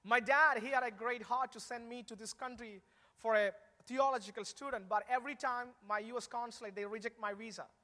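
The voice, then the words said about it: Non-native English accent. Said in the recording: “some of you have the difficulty to understand my English, my accent ... I was really poor in speaking in English”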